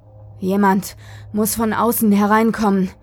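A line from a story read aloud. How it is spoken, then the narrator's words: Panting. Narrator (German): keuchte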